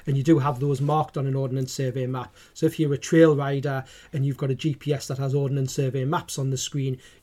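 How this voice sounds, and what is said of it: Geordie accent. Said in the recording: “in my Geordie accent”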